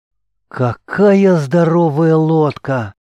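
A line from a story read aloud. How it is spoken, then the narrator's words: Amazed breathless exclamation. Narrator (Russian): Раскрыв в изумлении рот, выдохнула дева-воительница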